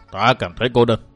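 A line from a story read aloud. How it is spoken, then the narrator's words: Sighing. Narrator (Vietnamese): Quỷ Kiếm Giả Trường thở dài một tiếng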